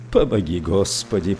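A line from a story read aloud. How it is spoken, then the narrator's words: Mumbled. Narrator (Russian): пробормотал он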